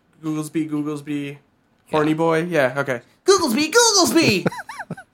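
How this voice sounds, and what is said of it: Impression of Googlesby. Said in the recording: “That sounds just like him. ... I do a great impression. ... You really do.”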